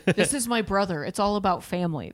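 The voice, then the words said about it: Imitates another person's voice. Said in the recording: “my best Vin Diesel impression”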